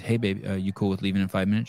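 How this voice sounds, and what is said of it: Switches to a different voice. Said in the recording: “in a different voice,”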